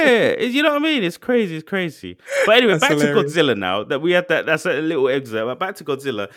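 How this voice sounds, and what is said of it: Usual voice. Nothing is said of it.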